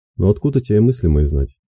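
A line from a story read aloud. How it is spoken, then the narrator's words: Said dryly. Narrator (Russian): сухо сказав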